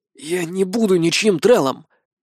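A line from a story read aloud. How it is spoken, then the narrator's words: Hoarse rasp. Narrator (Russian): прохрипел я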